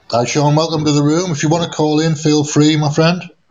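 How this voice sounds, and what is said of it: British accent. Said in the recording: “I like British accent ... I can't do anything about the accent.”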